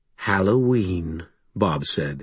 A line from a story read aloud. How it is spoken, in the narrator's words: his voice turning sober